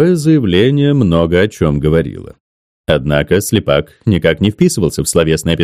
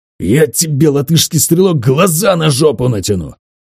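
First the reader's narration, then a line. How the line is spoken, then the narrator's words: Unrestrained hiss. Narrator (Russian): Леня Слепак не сдержался и прошипел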